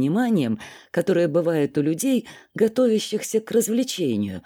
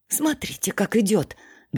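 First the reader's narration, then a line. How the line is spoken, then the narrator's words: Loud whisper. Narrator (Russian): громким шепотом сказала Лариса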